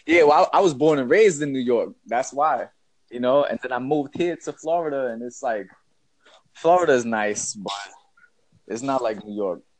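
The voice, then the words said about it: New York accent. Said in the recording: “that New York accent is so different.”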